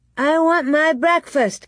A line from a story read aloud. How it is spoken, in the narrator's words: Carrie shouted